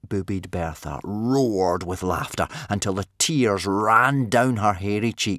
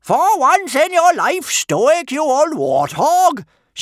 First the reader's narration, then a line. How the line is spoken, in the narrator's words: bellowed